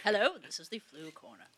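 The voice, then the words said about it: Put-on English accent. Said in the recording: “I don't know why I have to go into an English accent when I speak in this voice ... It's not like an English like newscaster.”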